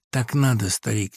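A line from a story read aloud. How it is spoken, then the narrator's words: Quiet. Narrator (Russian): тихо ответил Леха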